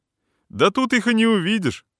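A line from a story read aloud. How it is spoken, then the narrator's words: Loud, nearby. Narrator (Russian): громко раздается около меня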